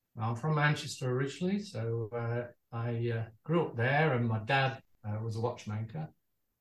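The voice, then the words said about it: UK accent. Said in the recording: “You've got a beautiful UK accent.”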